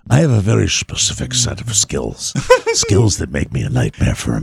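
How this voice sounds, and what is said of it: Liam Neeson impression. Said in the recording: “that should be an Italian accent if you're going to do that ... because it's because Liam Neeson's”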